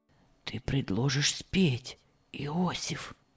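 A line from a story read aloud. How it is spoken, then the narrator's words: Whisper. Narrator (Russian): шепнул Герберт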